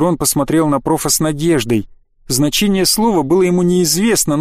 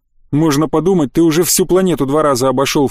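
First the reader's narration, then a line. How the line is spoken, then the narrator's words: Snort. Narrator (Russian): фыркнул Демьян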